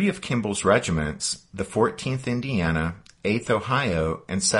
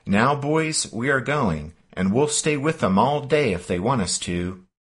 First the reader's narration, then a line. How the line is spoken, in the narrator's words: Kimball called out to his troops